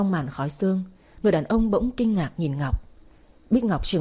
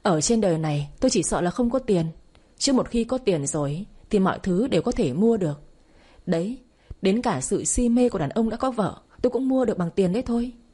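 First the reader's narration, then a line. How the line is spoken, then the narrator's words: Bursting laughter. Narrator (Vietnamese): Ngọc cười phá lên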